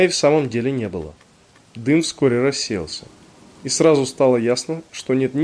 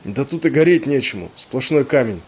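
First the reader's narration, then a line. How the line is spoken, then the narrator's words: Coughing, hoarse. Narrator (Russian): кашляя прохрипел полковник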